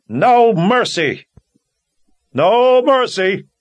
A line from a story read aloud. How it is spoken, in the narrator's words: every Daharan within earshot called out in answer